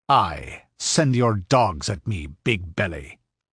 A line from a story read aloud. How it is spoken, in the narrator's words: sneered Conan with bitter scorn